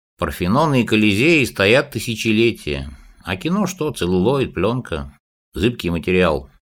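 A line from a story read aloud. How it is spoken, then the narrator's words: Sighing. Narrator (Russian): Колотозов вздохнул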